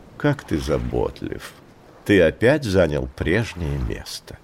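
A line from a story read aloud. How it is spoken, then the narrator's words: Tender purr. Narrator (Russian): нежно промурлыкала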